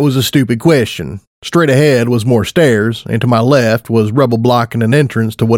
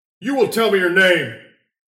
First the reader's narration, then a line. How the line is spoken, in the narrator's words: a commanding voice shouted